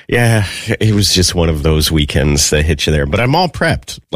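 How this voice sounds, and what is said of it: Sick, rough-sounding voice. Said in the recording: “maybe you could tell from my voice, still kind of recovering from being sick.”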